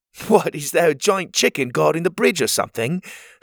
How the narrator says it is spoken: He laughed at his own joke

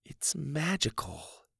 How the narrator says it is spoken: Susie whispered

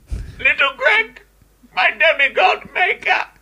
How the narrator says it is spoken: Zeus laughed for so long and so hard

